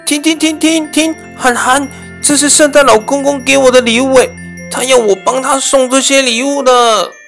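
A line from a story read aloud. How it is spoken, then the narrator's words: Hurried call. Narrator (Chinese): 小迪赶紧叫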